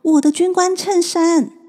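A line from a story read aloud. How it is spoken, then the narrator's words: Child crying in pain. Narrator (Chinese): 屋里传来小孩的痛苦哭声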